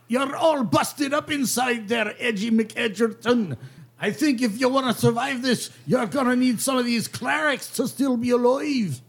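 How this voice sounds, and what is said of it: Speaks in a put-on accent. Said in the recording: “Accent.”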